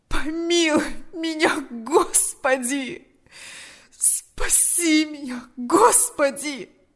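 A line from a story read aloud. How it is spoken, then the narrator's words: Moaning. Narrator (Russian): Застонал он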